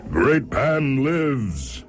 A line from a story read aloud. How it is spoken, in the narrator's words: he cried